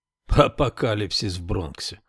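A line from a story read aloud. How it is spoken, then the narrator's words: Scornful snort. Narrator (Russian): фыркнул критик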